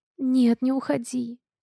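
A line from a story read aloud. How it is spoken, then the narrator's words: Sleepy request. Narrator (Russian): сонно прошу я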